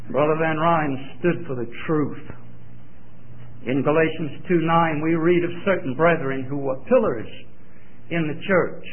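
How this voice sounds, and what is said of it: Southern US accent. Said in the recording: “since I'm from Georgia ... my southern accent”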